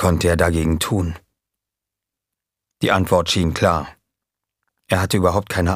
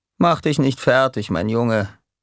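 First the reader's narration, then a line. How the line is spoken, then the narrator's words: Calm. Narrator (German): sagte er ruhig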